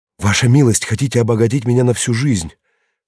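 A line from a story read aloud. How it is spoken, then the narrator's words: Sudden cry. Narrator (Russian): вскрикнул он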